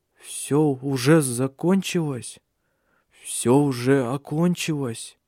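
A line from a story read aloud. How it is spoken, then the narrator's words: Trembling voice, forced smile. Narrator (Russian): спросил он дрожащим голосом, пытаясь улыбнуться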